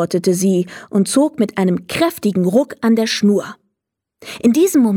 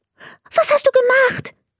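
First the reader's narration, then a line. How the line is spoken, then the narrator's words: Very agitated question. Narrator (German): fragte er ganz aufgeregt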